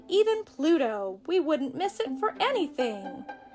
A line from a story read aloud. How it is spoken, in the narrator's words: laughed Ferdy